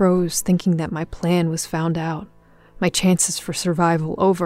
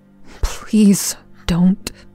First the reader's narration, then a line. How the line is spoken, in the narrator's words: muttered